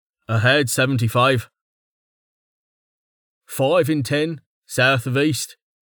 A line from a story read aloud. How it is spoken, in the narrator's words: Shu said